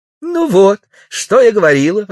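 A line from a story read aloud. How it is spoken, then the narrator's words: Exclaiming. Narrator (Russian): воскликнула милиция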